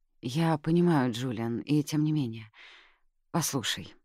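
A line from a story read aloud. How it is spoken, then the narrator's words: Sighing. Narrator (Russian): Анжелина вздохнула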